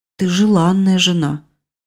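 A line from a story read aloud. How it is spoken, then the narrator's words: Forced out reluctantly. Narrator (Russian): Собеседник мрачно все-таки выдавил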